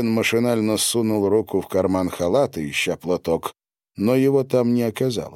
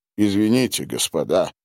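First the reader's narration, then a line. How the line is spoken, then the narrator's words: Muttering. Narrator (Russian): пробормотал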